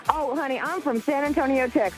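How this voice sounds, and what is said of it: Texan Southern accent. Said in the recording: “I just melt like butter with that accent”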